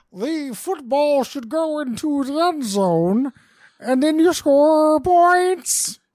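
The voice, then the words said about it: John Madden impression resembling Bill Cosby. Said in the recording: “Do your Madden right now. ... So I asked you to do John Madden. What I got was Woodchuck Cosby.”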